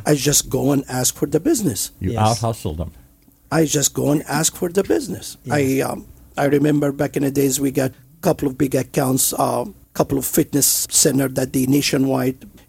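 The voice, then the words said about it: Heavy foreign accent. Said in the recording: “somebody, immigrant, have a heavy accent ... I'm the only one that immigrant and have accent”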